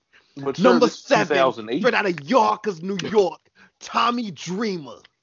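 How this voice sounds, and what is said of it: Impression of Taz's voice. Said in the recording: “can I hit my Taz voice? ... I'm doing his AEW voice”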